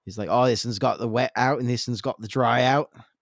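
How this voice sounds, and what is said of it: Put-on Australian accent. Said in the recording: “That's my Aussie accent.”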